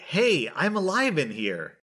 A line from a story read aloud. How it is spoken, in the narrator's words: I yell loudly